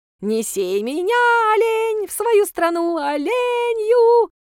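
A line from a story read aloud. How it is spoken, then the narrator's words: Yelling at top of lungs. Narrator (Russian): Орал он во всё горло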